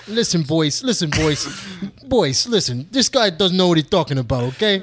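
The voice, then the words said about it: Imitates another person's voice. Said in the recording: “That's a pretty good impression right there. That's a pretty good impression.”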